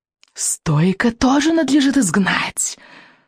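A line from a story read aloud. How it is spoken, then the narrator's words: Hissing. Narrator (Russian): донесло шипение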